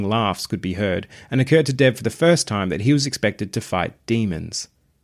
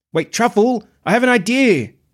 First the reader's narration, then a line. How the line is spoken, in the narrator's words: Dev called out